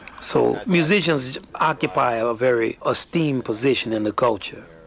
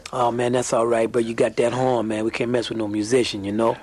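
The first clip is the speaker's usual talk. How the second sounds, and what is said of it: Put-on New Orleans accent. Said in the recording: “they would say in a New Orleans accent”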